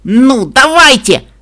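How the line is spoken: Shouting upward. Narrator (Russian): закричала я вверх на гигантские головы Пинки Пай

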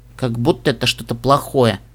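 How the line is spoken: Grumbling. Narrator (Russian): проворчал Нед

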